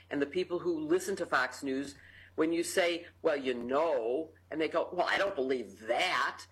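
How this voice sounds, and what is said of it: Chicago accent. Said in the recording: “your Chicago accent ... I love my accent ... your Chicago way”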